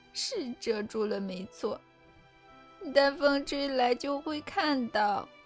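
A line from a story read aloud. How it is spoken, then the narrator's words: Suppressing a smile, asking. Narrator (Chinese): 伍德藏住笑容地问道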